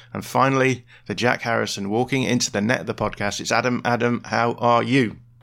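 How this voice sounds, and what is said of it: Croaky, hoarse voice. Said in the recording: “I've only just realised just how croaky my voice is this morning”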